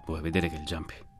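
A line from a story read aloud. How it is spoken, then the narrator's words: Muttering. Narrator (Italian): borbottò Alberto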